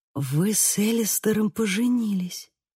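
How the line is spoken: Whispered. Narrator (Russian): прошептала

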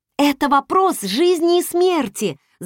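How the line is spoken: Shout. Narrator (Russian): закричала я

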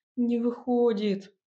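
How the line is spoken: Complaining. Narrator (Russian): пожаловался Илья и взмолился

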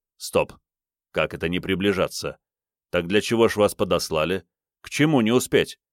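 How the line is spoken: Muttering. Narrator (Russian): Хенран пробормотал

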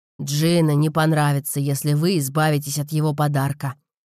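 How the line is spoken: Grumbling father. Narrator (Russian): проворчал отец Розы

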